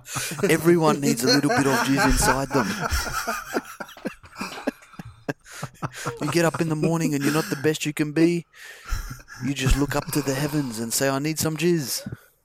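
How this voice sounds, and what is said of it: Vague New Zealand accent. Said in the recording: “That's vaguely New Zealand accent. ... you have been training with the accents rubbing off on you.”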